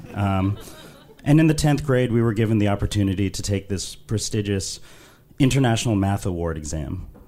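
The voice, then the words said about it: London English accent. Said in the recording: “I was raised in London, which I'm sure you can tell from my accent.”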